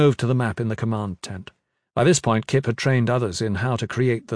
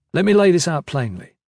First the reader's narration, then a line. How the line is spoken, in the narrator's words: Kip said